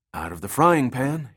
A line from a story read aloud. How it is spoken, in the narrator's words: he wheezed